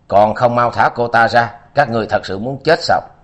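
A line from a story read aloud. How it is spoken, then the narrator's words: Angry shouting. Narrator (Vietnamese): Nam Ma giận dữ quát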